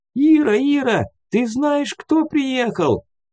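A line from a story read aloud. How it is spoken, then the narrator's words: Excited exclamation. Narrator (Russian): воскликнула Никитишна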